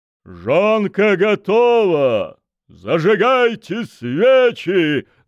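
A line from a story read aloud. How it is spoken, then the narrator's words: Loud proclamation. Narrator (Russian): громко провозгласил майор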